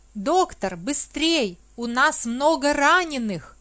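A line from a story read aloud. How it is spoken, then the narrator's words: Nurse's shout. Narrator (Russian): крикнула медсестра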